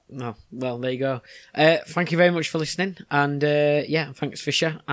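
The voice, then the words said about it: Hoarse, strained voice. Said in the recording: “I'm struggling with my voice a little bit today, as you can tell ... you seem to be getting a little bit hoarse”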